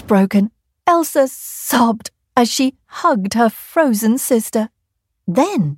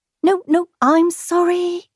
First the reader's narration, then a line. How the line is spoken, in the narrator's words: stammered Kangaroo